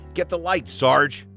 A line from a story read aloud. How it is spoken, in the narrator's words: Buzz shouted